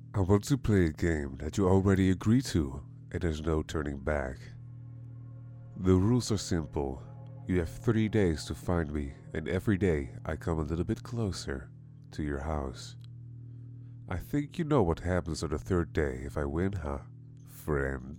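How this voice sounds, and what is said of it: Deep menacing voice. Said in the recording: “The deep voice finished with a cackle.”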